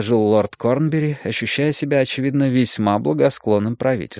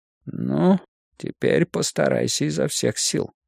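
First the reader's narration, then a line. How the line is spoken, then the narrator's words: Said in undertone. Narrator (Russian): Сидящий рядом магистрат Пауэрс сказал ему вполголоса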